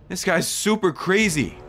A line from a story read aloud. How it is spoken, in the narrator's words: I exclaimed